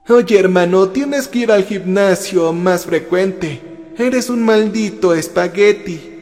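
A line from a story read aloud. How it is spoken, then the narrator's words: Laughing. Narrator (Spanish): se rió Micaela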